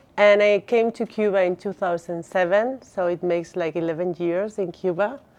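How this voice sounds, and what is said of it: Spanish Basque accent in English. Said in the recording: “I'm from Basque Country, north of Spain ... Sorry for my accent.”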